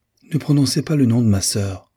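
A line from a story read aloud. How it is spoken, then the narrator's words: Angry exclamation. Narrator (French): s'écria Magdalene avec un élan de colère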